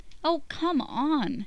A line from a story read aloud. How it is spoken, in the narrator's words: Jess whines